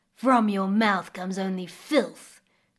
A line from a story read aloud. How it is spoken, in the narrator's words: growled the crocodile